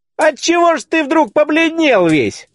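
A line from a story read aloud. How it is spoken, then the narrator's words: Loud shout, would-be brave. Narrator (Russian): закричал один из гостей, превышавший всех головою и старавшийся всегда выказывать себя храбрецом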